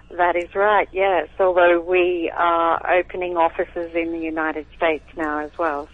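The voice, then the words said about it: Slight Australian accent. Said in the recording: “a little accent in ... voice, that's because she's from Australia”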